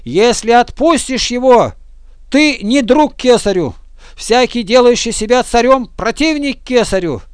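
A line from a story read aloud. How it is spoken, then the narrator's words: Crowd shouting. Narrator (Russian): Иудеи же кричали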